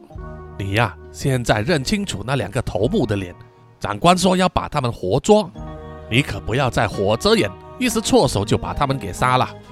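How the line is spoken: Low voice. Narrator (Chinese): 阿波低声的说

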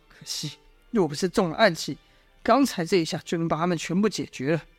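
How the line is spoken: Private sigh. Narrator (Chinese): 阮树暗自叹道

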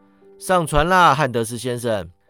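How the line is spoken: Sarcastic. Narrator (Chinese): 讽刺道

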